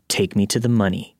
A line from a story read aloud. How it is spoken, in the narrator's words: in a hateful tone